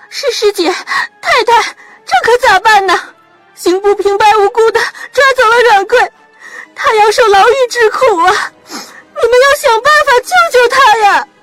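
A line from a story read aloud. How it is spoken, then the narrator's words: Crying while speaking. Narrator (Chinese): 潘玉莹边哭泣边说道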